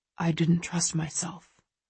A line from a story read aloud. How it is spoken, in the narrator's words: he says quietly